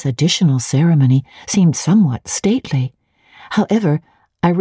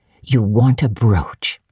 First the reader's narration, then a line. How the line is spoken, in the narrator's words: said Mrs